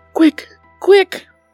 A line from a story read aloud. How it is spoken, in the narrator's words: cried the king and Bobo in the same breath